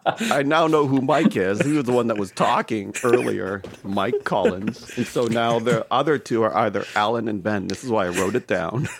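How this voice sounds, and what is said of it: Canadian accent. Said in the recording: “I'm the one with the Canadian accent”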